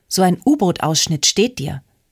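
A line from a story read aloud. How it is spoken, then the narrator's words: Plain. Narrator (German): sagte Sophie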